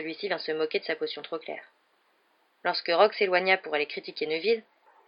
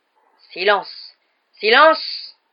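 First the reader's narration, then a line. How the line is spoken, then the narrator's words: Roared. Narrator (French): rugit Rogue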